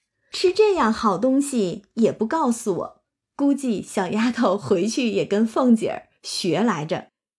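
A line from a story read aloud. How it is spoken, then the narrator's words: Laughing. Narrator (Chinese): 凤姐儿……笑说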